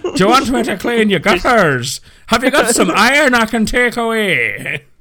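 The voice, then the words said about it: Put-on Irish accent. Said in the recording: “don't know why he sounded a bit like a gypsy ... that sounded Irish rather than like a gypsy”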